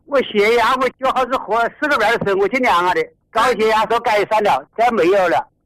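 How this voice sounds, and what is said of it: Strong local Hubei accent. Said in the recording (Chinese): “那个乡音一听就晓得 ... 你是仙桃的，你那个口音是模仿不了了”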